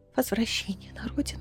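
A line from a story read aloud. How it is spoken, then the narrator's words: Trembling whisper. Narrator (Russian): Мануна дрожащим голосом прошептала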